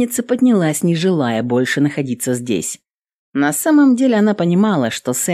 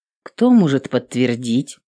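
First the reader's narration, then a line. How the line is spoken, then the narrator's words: Cold. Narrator (Russian): холодно уточнила Эвелин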